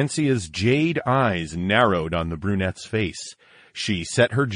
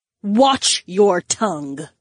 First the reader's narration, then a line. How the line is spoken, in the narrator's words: Daisy snapped